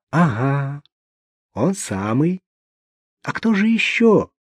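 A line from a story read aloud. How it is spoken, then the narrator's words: Even more affectionate. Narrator (Russian): Еще более ласково продолжил Лев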